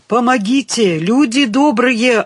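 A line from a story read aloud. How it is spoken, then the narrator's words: Wild screaming. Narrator (Russian): орала она дурным голосом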